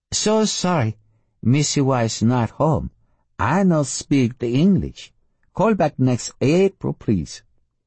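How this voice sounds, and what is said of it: Bad fake foreign accent. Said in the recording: “If that's supposed to be a Spanish accent ... it's atrocious. If it's supposed to be Oriental, it's merely terrible.”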